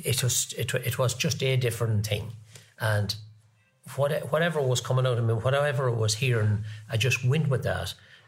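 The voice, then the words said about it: Irish Longford accent. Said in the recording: “that's an awful Longford accent you have”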